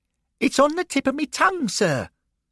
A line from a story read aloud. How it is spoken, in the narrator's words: Derek chirped